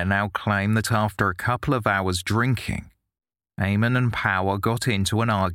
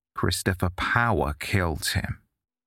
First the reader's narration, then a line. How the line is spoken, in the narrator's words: Maguire calmly responded